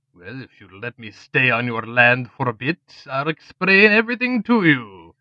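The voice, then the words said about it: Unfamiliar accent. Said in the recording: “That accent, I haven't heard it before.”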